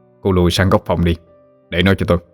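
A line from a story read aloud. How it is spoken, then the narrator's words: Cold. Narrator (Vietnamese): Chú ba lạnh lùng nói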